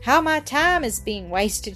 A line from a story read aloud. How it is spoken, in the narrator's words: she sighed